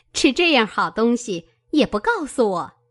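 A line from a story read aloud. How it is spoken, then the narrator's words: Laughing. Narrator (Chinese): 凤姐儿笑道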